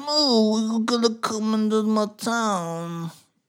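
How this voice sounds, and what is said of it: Poor imitation of another person's voice. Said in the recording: “That was Marlon Brando. ... That was a terrible, terrible impression. ... That was not good at all.”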